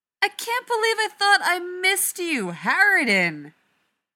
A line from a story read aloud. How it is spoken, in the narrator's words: Rodney shouts back